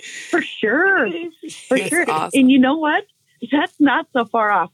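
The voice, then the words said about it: Minnesota accent with long O's. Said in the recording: “You've got the long O's in there. I can hear it a little bit. ... It's a long O ... very distinct accent ... northwest corner of Minnesota”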